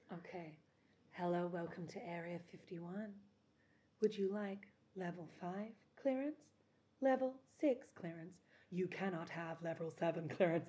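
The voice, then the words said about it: Sultry phone sex operator voice. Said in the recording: “my voice sounds like a phone sex line ... give us the conspiratory-based phone sex operator”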